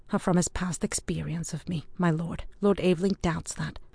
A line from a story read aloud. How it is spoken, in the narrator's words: observed Ewan quietly